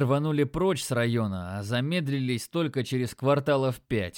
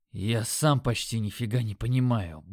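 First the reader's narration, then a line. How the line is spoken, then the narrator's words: Grumbling mutter. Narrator (Russian): буркнул я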